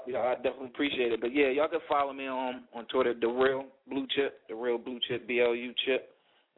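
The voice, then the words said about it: Delaware accent. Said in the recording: “I love your accent. I love your, you know, Delaware accent.”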